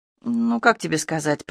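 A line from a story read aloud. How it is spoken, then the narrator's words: Hesitant mumble. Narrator (Russian): пробормотала я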